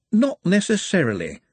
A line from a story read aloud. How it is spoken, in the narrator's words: said a voice cheerfully